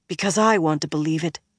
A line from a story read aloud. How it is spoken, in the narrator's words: Min muttered